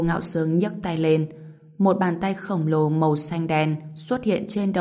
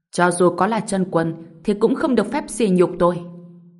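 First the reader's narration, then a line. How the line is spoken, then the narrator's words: Angry roar. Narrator (Vietnamese): Người đàn ông tóc tím tay siết thành nắm đấm, gầm lên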